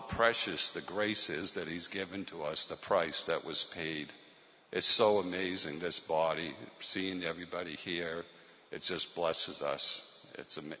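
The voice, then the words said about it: Boston accent. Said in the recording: “you can tell from my accent that I'm from Boston, Massachusetts”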